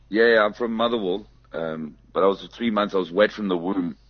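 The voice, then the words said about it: Slight Scottish accent. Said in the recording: “You've got the accent. There's a bit of Scottish in there or something.”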